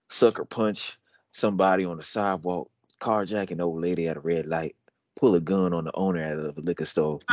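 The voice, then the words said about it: Put-on country accent. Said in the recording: “I'll do it in a country accent, partner... I'm reading it like this.”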